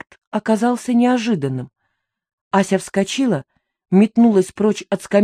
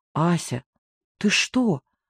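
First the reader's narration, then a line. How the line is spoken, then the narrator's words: Quiet question. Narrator (Russian): спросила я тихо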